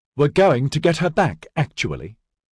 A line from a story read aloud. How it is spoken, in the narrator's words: Dinlay said hotly